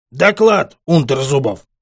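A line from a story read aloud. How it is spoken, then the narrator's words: Roaring again. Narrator (Russian): Опять взревел Гаврилов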